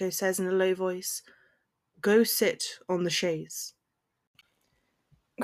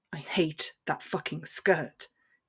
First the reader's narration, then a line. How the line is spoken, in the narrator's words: he growls